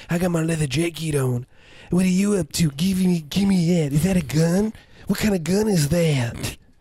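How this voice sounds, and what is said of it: Menacing cool guy voice. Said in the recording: “cool guy voice ... that voice is always like, there's something bad's gonna happen. He's like the leather jacket guy”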